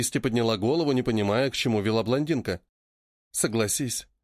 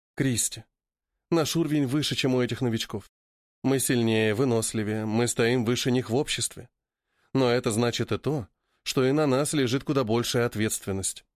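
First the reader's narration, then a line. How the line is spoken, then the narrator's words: Soft female voice. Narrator (Russian): мягко произнесла актриса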